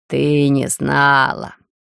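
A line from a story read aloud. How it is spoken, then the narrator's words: Condescending statement. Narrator (Russian): С долей снисхождения констатировала Дарья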